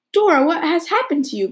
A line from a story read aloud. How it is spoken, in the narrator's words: cried Anne